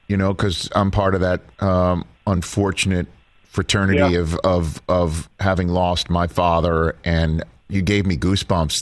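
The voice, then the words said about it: Choked-up, emotional voice. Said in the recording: “I'm getting choked up hearing it.”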